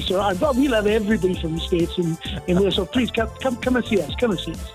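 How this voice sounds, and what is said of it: Regional British accent. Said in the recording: “love that accent”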